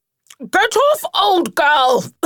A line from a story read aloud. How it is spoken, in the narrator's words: spluttered Rat, with her mouth full